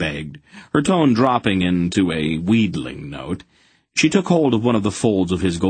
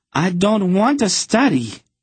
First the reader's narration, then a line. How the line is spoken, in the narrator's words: she cried